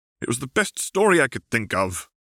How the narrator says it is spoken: cried Tom

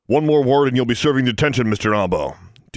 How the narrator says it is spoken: Dean Plack snapped

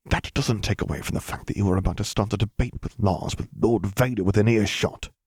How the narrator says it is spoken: he hissed out

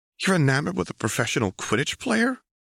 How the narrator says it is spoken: Anna gasped

